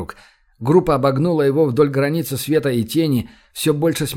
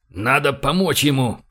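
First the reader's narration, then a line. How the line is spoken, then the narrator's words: Growling. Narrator (Russian): прорычал Франц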